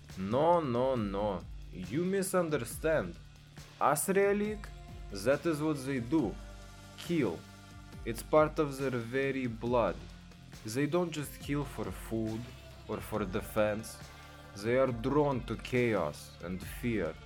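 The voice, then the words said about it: Thick hard-to-understand foreign accent. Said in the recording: “Your accent is hard enough to understand”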